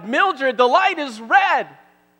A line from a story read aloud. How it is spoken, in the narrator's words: Gertrude shouted